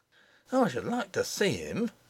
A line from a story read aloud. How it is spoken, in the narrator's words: muttered